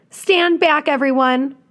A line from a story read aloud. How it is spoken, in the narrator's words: Mac yells